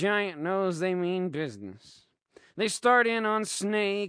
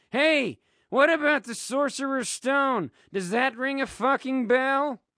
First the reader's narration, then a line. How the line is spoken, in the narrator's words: kids start to yell out